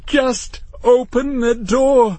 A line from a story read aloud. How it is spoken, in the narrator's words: Matthew pleaded